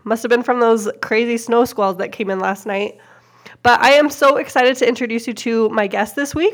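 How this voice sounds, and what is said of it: Voice with a slight cold. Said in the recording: “If you can't tell, I have a little bit of a cold.”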